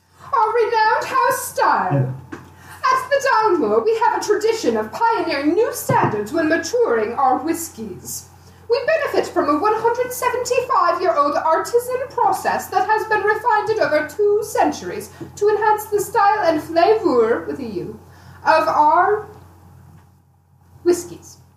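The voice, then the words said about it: Pretentious put-on voice. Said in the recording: “I'll try my pretentious voice”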